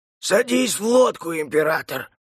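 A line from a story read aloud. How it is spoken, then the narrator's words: Hoarse command. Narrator (Russian): приказал хриплый голос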